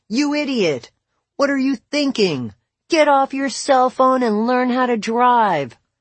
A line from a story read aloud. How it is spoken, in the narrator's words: someone screaming